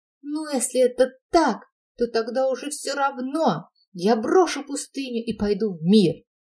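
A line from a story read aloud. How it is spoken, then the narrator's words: Desperate old man's shout. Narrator (Russian): старец, как только услыхал, что о нем даже дьяволы говорят, отчаянно закричал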